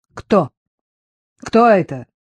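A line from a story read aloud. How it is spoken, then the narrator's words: Rather rude question. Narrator (Russian): довольно грубо спросил он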